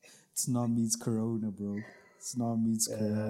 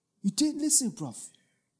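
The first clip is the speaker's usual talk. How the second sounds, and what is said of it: Poor attempt at British accent. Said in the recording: “Can't do a British accent.”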